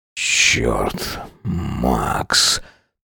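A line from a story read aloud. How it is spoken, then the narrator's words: Strained, forced out. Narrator (Russian): Только и смог выдавить он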